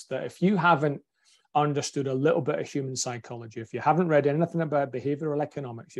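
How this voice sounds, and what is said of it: Broad Scottish accent. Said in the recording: “my broad Scottish accent”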